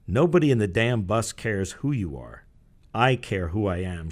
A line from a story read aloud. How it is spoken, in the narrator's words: said icily